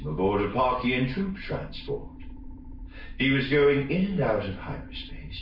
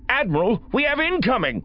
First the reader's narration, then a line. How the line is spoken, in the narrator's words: Bicleon snapped